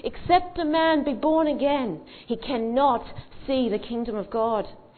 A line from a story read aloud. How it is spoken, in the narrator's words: Whitfield again pitched his voice over the sea of people and said